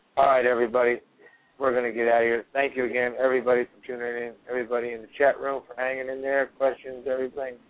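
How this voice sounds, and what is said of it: Hoarse, strained, fading voice. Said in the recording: “I can barely talk. I'm losing my voice”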